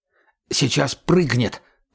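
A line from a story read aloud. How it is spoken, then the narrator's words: Whisper. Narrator (Russian): прошептал Сетунец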